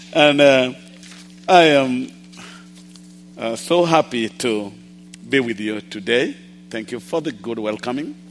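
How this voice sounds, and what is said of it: Somewhat unusual accent. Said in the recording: “my accent is a little weird”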